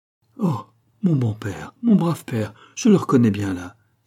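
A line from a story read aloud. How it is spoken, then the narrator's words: Exalted exclamation. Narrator (French): s'écria Catherine, exaltée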